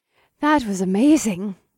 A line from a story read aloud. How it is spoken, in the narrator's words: sighed